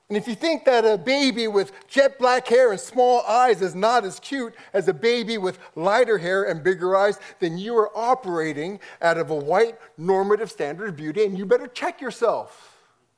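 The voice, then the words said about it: Heated, fired-up, angry-sounding delivery. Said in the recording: “I sound mad. I'm not mad... just passionate... I'm trying to calm down... I just get fired up about this.”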